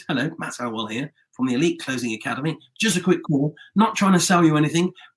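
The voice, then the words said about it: Put-on salesy telephone voice. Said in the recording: “put on your telephone voice”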